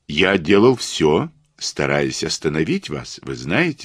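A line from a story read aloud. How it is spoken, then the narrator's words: Gentle. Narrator (Russian): сказал я мягко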